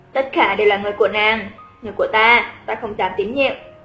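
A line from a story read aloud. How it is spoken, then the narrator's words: Smiling. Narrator (Vietnamese): Lý Quân Hiên mỉm cười nói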